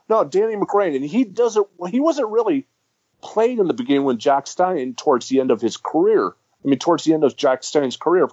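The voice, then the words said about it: American accent. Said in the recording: “a lot of people don't understand my accent either, and I'm full-blooded American”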